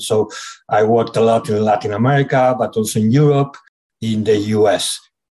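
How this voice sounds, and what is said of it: Speaker with a foreign accent. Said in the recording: “As you can see, I have an accent.”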